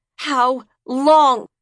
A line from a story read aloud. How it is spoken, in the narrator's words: She shrieked